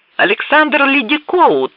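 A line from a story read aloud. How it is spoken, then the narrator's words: Shouting. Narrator (Russian): крикнул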